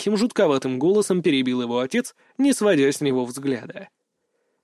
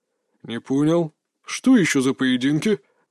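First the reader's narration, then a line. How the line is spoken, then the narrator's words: Father's puzzled growl. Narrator (Russian): рыкнул отец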